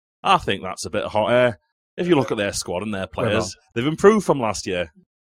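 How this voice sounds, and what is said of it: Exaggerated Sheffield Yorkshire accent. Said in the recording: “Should I try and do the accent for this one now? ... The worst Yorkshire accent you've ever heard, by the way, Sheffield accents.”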